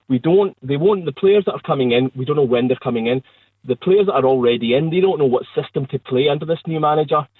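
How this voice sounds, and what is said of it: Angry, seething tone of voice. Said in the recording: “you probably can tell from my voice, I'm actually seething”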